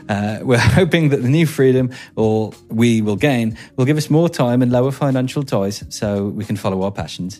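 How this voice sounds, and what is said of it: Subtle put-on Birmingham accent. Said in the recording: “That's not bad. That's a pretty subtle Birmingham accent I've done there.”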